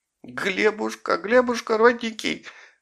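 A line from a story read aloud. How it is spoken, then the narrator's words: Sobbing again. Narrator (Russian): зарыдала она снова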